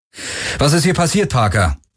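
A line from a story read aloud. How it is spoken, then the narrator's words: Called out. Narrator (German): rief Garland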